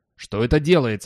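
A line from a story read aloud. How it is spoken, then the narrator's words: Roaring. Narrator (Russian): взревел Хиггинс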